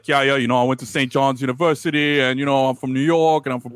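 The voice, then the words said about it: Put-on Brooklyn New York accent. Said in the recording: “that guy has a New York accent. ... He's got a Brooklyn accent.”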